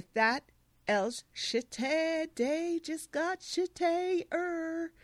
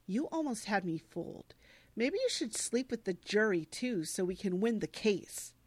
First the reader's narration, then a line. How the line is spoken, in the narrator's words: She says bitterly to Elle